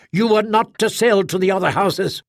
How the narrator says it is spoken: he said sternly

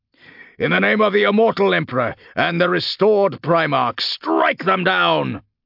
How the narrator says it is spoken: Castor roared

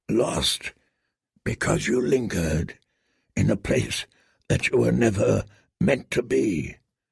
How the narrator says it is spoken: murmured Ser Jorah, as softly as a wind

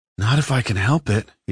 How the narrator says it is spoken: he sighed

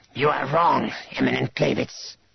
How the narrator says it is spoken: Drachmas hissed

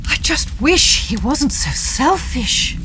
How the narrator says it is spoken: Barbara says with a sigh

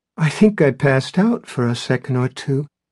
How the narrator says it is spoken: said, then laughed shakily

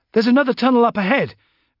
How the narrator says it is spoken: Valade called excitedly

